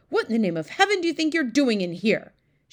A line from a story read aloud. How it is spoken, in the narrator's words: she shouted angrily to Sophie